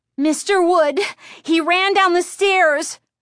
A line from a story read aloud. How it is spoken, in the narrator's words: Chris said frantically